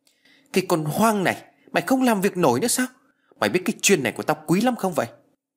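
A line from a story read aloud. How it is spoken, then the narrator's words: Loud shout. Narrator (Vietnamese): Ông ta quát lớn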